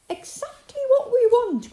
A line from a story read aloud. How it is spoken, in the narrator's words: cried Molly